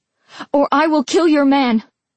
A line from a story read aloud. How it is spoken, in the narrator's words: I shouted